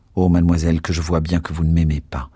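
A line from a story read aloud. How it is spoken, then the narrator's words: Cold tone. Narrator (French): Phoebus dit d'un ton froid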